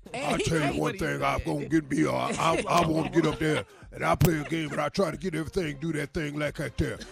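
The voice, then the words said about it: Thick Louisiana accent impression. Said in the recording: “that accent is so thick. That Louisiana accent ... That's exactly how he sounds”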